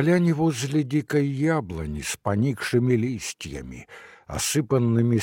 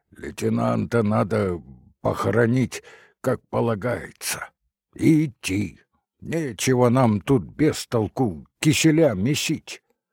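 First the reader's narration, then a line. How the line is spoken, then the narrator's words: Hoarse from coughing. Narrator (Russian): Старшина охрипшим от кашля голосом сказал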